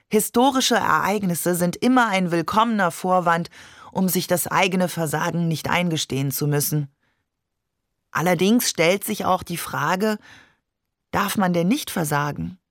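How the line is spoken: Sighing. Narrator (German): seufzt Donadieu

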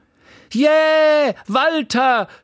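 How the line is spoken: Woman shouting from audience. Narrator (German): schrie eine Frau im Publikum

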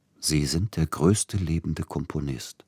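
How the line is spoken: Gentle voice. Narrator (German): sprach sanft Siegfried Neugebauer

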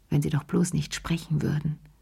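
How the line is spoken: Murmured. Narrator (German): murmelte sie

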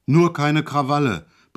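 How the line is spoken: Sudden bellow. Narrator (German): brüllte er auf einmal los

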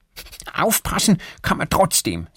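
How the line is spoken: Angry. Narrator (German): sagt Erik wütend

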